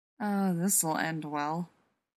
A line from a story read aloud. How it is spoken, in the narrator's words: John muttered to Rodney